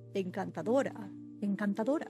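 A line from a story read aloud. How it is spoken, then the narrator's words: Murmuring. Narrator (Spanish): Lord Henry murmurando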